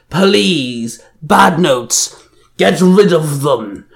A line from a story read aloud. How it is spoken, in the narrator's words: Banjin roared